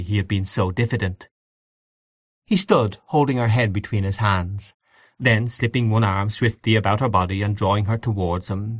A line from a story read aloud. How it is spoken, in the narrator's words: he said softly